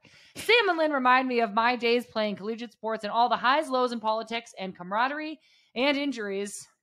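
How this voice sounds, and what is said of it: Put-on news reporter voice. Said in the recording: “Why ... are you reading this in an accent? ... This is my news reporter.”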